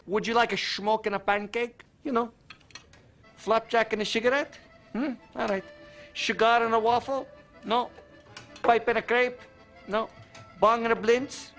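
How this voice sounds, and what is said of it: Hammy exaggerated Dutch accent, Goldmember. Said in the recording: “accents are often so hammy, though. Like, it's such an easy accent to overdo. Like, of course, you know, Goldmember being the prime example ... Mike Myers is very good at doing accents and does do a very good accent. He actually does a very good Dutch accent, but obviously is slapsticking”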